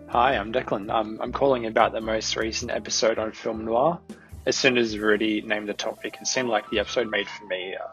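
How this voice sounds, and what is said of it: Speaks with a distinct accent. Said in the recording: “his wonderful, wonderful accent”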